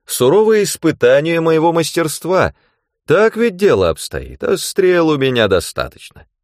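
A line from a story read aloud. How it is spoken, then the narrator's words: Cheerful snort. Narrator (Russian): Он весело хмыкнул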